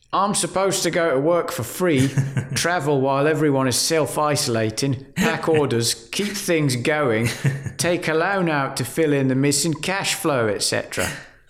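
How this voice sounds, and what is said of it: Put-on London accent. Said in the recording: “in your London accent ... Is that London? ... That was clearly London.”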